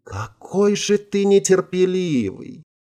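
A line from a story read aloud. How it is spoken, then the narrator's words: Sugary sigh. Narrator (Russian): приторно вздохнула оказавшаяся в его руках девушка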